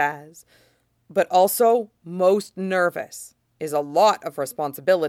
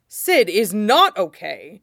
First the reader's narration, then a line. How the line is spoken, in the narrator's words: Gino says indignantly